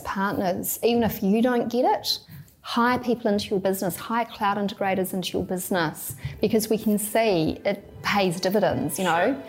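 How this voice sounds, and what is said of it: New Zealand accent. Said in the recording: “you're clearly from New Zealand, given the accent”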